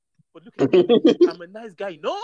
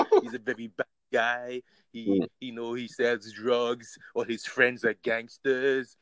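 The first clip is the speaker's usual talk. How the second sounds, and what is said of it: Put-on French accent. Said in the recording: “His French accent”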